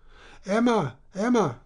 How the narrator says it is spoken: cried Charles

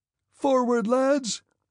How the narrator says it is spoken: he shouted in a voice piercing as a child's

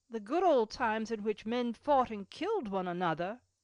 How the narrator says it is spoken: said Cecil, laughing

